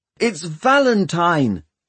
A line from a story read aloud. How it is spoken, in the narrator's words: he shouted